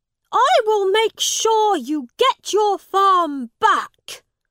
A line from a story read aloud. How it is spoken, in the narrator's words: Edward jumped up and shouted